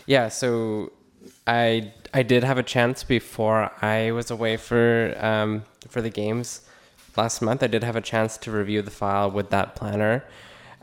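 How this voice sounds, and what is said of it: Hoarse, strained voice. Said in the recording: “losing my voice,”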